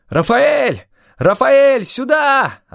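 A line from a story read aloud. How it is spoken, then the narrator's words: Yelling. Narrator (Russian): орал я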